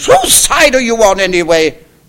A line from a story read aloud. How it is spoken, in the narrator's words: cried Gloria the Goose